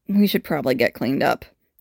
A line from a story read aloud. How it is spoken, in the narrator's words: Boyle mutters